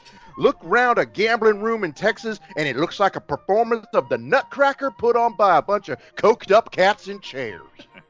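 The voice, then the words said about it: Put-on Southern American accent. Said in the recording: “Southern accent”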